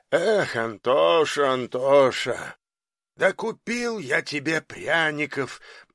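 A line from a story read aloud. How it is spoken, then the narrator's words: Grumble. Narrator (Russian): Буркнул Долгополов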